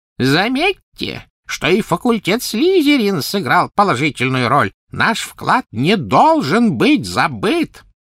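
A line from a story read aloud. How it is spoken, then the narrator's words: Thin high-pitched call. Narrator (Russian): Финиас Найджелус взывал своим тонким высоким голосом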